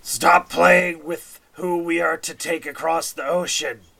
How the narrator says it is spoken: that same spectator who grumbles in common in a sort of guttural

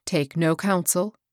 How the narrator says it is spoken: he replied

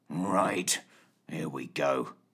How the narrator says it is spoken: muttered Fitch

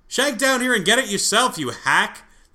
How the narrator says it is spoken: the voice shouted up from the basement

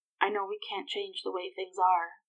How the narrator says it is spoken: he croaked softly behind her

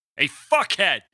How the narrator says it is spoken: he barked

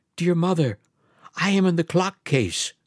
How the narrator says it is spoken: the youngest, a soft voice cried

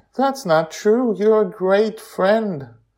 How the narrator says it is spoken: She says warmly

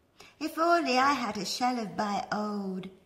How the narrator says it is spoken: he sighed

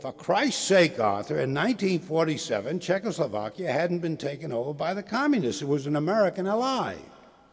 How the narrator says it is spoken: weighing about 240 pounds, and roared

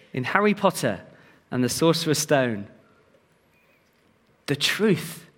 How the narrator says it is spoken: Dumbledore sighed

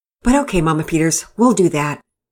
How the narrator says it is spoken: Pearson answered

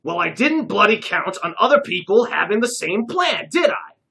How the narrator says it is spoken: snapped Jacques

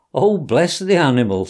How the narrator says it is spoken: said the girl, laughing

